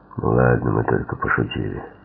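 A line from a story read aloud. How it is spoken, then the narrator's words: Muttered. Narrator (Russian): только пробормотал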